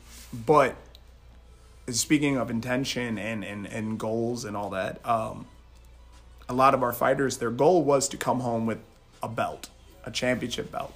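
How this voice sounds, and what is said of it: Slightly raspy voice. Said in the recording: “my throat is a little raspy.”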